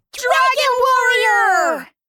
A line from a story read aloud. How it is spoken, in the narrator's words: Fireball and Sparky shouted at the same time